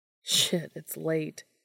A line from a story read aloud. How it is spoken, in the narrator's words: said with a laugh